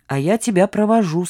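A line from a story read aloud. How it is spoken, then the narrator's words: Plain. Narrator (Russian): сказал Калаяр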